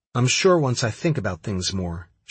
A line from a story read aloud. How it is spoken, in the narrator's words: she said